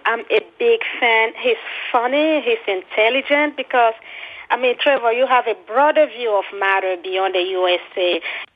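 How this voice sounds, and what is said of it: African-accented English. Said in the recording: “I'm from Africa. You can tell from my accent.”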